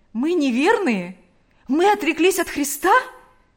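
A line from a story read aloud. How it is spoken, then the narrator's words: Exclaimed. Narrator (Russian): воскликнул Павел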